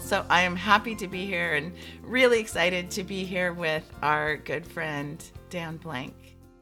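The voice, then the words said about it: Congested voice with a cold. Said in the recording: “I have a cold today, but I sound a lot worse than I feel”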